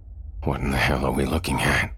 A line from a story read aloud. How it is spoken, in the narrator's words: Thomas groaned, feeling queasy